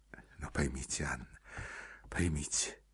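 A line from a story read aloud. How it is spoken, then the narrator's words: Hurried undertone. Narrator (Russian): проговорил он вполголоса, торопясь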